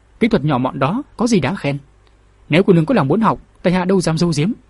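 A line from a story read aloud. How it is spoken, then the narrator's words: Shy smiling voice. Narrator (Vietnamese): Vệ Thiết đỏ mặt mỉm cười nói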